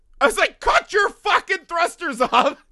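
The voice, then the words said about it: Screaming. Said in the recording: “I'm going to stop screaming.”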